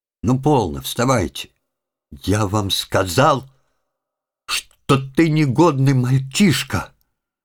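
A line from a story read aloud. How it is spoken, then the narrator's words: Spiteful scolding. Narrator (Russian): Злобно выговорил Иленька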